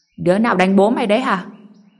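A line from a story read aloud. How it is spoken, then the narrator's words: Frightened yelling. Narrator (Vietnamese): hắn gào thét là thế, nhưng gương mặt lại đầy vẻ hoảng sợ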